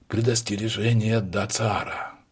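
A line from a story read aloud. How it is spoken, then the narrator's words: Hollow muffled voice. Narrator (Russian): произнес он, наконец, глухим голосом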